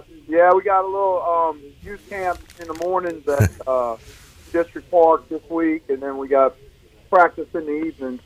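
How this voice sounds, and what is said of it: Slightly strained hoarse voice. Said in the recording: “My voice is a little strained ... you've been doing some screaming”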